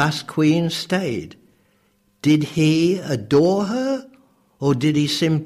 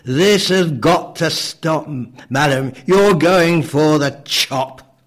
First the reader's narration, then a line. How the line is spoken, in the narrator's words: He thundered